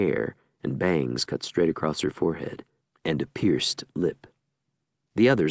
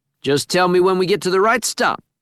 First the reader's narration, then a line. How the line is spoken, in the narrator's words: he shouts over the cheering